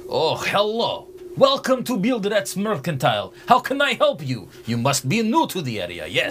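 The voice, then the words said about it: Shopkeeper character voice with accent. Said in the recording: “I very much like your accent.”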